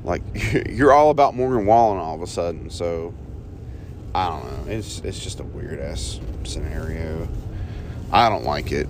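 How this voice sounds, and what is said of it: Rough, strained-sounding voice. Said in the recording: “Sorry about my voice. It sounds like shit”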